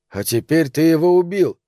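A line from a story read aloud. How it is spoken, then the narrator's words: Plain. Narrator (Russian): сказал Билли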